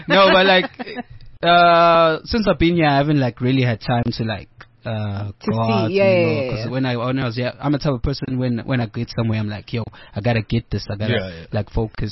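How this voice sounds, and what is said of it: Zulu-accented English. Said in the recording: “your Zulu accent”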